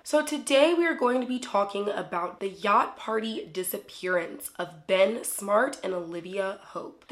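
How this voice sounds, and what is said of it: Slightly froggy, sick-sounding voice. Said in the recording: “if my voice sounds a little bit froggy, it's because it is. I actually am sick right now.”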